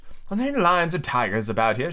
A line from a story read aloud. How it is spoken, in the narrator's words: She asked timidly